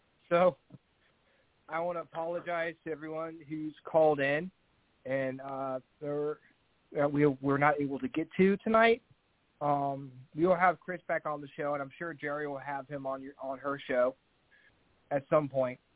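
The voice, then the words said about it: Strained, failing voice. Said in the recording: “lose my voice ... my voice is about to go”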